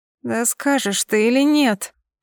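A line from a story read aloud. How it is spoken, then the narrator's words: Moaning. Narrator (Russian): Простонала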